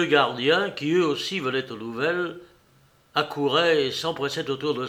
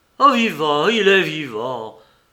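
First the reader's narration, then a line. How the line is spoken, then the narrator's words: Exclaiming. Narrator (French): s'exclama Gautret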